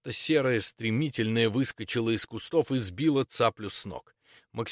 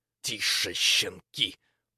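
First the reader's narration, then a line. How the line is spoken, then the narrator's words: Hissing through teeth. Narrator (Russian): прошипела она сквозь зубы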